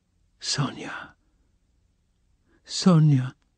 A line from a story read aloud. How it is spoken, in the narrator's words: articulated softly and caressingly, as though surprised to find her there